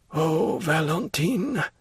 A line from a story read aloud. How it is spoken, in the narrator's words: Morel ... he murmured